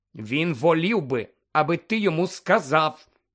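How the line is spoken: Stern interruption. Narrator (Ukrainian): суворо обірвала його Герміона

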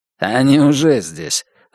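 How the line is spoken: Wry snort. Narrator (Russian): Ронтл хмыкнул

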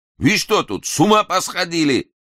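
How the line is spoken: Angrier shout. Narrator (Russian): Еще сердитей крикнул тот же голос

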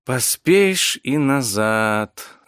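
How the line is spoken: Purring under breath. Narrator (Russian): замурлыкала под нос Виктория

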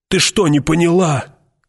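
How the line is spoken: Shout. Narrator (Russian): крикнул он

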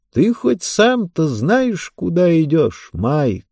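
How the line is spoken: Plain. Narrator (Russian): спросил он

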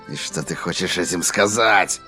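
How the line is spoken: Growled. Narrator (Russian): прорычал Дипейп

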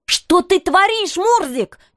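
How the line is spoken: Impulsive cry. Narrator (Russian): не удержавшись, выкрикнула я

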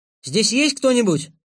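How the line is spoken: Shout. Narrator (Russian): крикнул я

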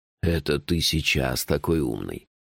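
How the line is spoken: Mocking. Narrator (Russian): насмешливо сказал Джуфин

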